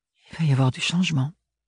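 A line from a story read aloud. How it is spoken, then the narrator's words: Murmuring. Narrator (French): murmura Ophélie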